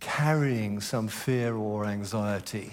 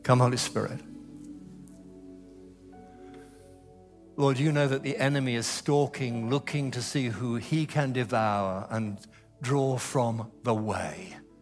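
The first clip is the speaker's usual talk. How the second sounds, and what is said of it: Raised, loud voice. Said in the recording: “clap my hands and raise my voice, so don't let that alarm you”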